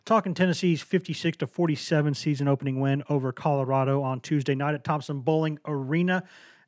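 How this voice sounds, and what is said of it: Rough, worn-out sounding voice. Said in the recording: “apologize for my voice again; it's it's crappy tonight. It's it's just that time of year, and it's late.”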